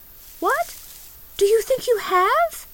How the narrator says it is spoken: cried the little girl

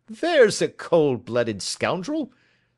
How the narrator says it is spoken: said Holmes, laughing

